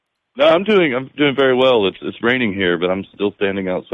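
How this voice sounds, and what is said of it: Usual voice. Nothing is said of it.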